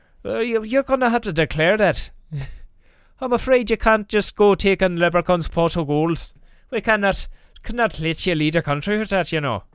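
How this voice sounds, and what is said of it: Put-on Irish accent. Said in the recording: “I guess that's kind of an Irish accent”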